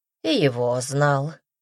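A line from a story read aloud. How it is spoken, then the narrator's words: Calm. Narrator (Russian): спокойно ответил Ханум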